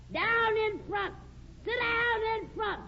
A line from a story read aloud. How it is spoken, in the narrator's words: some guy in the back hollered